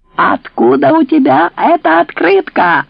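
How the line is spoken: Yelling. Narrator (Russian): заорала Тереза

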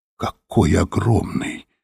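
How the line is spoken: Whisper. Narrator (Russian): прошептала Софи

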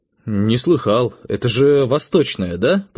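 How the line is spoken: Muttered. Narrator (Russian): пробормотал я

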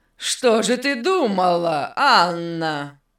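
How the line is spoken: Unkind laugh. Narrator (Russian): Беннет недобро засмеялся

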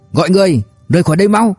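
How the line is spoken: Shouting over fierce wind. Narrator (Vietnamese): Hồng Trạch Sâm phản ứng nhanh nhất, hét giữa cơn gió dữ

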